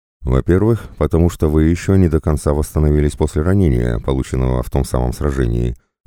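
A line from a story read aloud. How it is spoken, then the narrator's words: Plain. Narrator (Russian): ответил Дрейк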